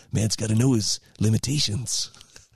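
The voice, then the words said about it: Clint Eastwood impression. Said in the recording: “That probably sounds best in a Clint Eastwood voice.”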